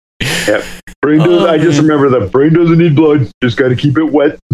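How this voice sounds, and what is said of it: Imitates a sitcom character's voice. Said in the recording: “good Al Bundy impersonation”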